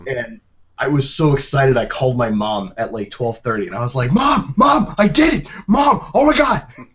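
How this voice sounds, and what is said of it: Yelling excitedly. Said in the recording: “You're yelling right now”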